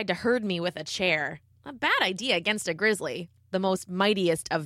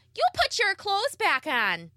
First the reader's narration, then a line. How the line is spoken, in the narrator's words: She yelled